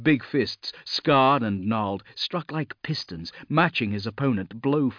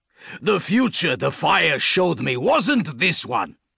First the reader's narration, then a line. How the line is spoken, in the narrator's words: Grimblood snarled